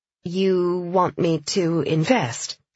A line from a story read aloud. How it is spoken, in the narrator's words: she said slowly